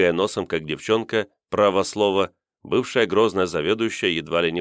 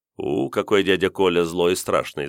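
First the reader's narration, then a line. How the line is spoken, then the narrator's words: Laughing. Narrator (Russian): засмеялся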